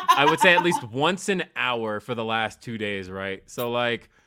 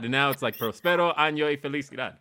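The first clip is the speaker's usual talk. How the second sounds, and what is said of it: Spanish accent on a Spanish phrase. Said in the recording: “you nailed the accent properly”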